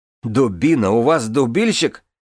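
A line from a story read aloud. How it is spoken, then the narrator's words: Bursting out laughing. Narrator (Russian): расхохоталась Дорна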